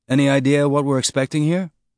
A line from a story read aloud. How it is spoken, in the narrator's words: In a conversational tone, Amos said